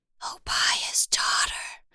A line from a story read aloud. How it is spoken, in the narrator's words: hisses